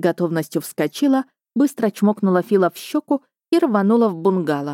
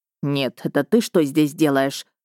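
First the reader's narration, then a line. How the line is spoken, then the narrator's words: Furious male hiss. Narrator (Russian): взбешенно прошипел мой мужчина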